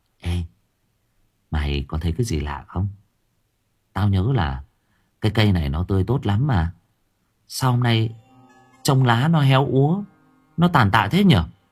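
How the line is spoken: Whisper. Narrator (Vietnamese): Thằng Khôi thì thầm

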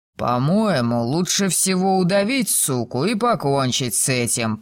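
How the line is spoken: Thug growling. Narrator (Russian): прорычал громила

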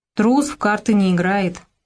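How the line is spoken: Booming drone. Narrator (Russian): прогудел Ишимбай

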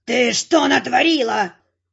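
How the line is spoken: Howl. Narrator (Russian): взвыл балахон

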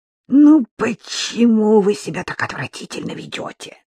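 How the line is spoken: Irritated hiss. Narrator (Russian): раздраженно прошипела Баба-Яга

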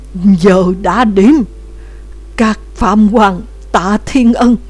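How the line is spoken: Trembling shout. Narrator (Vietnamese): Ông ta hô bằng một giọng run rẩy

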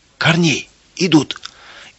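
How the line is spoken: Frightened shout. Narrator (Russian): испуганно закричал он

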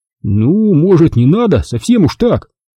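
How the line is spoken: Satisfied grumble. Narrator (Russian): удовлетворенно пробурчал майор

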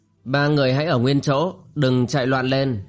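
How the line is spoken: Cold. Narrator (Vietnamese): nàng lạnh lùng cất tiếng

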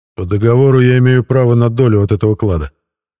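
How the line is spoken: Loud declaration. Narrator (Russian): громко заявил я

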